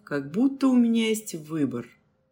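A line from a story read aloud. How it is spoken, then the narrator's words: Grumble. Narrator (Russian): проворчал Андрей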